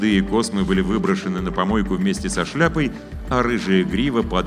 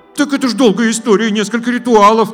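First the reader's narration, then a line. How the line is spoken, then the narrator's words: Began speaking, interrupted. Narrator (Russian): начала была Наталья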